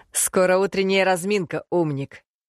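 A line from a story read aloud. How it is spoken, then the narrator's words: Laughing chuckle. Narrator (Russian): хохотнул другой парень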